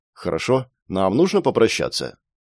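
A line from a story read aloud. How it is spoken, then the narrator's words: Calm reply. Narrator (Russian): я спокойным голосом ответил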